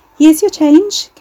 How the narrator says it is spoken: Carrie said, her own voice ringing in her ears over the chirpy strains of the chart music

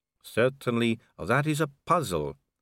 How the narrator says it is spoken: said the vampire calmly

